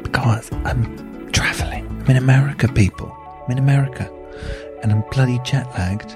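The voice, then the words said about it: Whispering. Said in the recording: “Why am I whispering? Well, you see, it's bloody 4 a.m”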